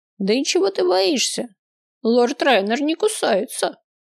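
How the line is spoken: Chuckling mage. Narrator (Russian): хохотнул маг

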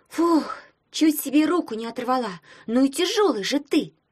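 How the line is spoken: Grumbled. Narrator (Russian): проворчала Таня

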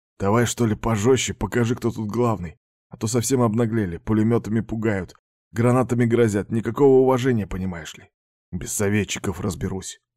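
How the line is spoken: Gruff grumble. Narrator (Russian): буркнул особист

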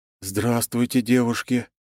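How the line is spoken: Deadened voice. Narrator (Russian): помертвевшим голосом произнес

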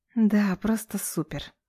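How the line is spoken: Exhaled through teeth. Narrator (Russian): Выдыхаю я сквозь зубы

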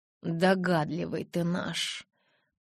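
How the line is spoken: Said through gritted teeth. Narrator (Russian): процедила я

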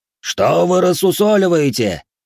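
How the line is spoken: Roar. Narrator (Russian): взревел Хэй

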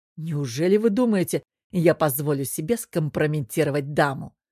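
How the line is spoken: Snorting. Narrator (Russian): Натан хмыкнул

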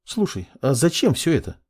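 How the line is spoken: Thoughtful question. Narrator (Russian): задумчиво поинтересовалась девушка

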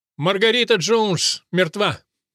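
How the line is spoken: Shout. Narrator (Russian): он крикнул

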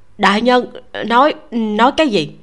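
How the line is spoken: Fearful stammer. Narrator (Vietnamese): La Thiêm Sự mồ hôi lạnh chảy ròng ròng, lắp bắp

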